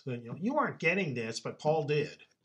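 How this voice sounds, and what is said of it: Whiny voice. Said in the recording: “you almost have to say this in a whiny voice ... a lot more whiny than the original”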